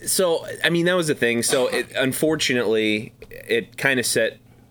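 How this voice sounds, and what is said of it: Usual voice. Nothing is said of it.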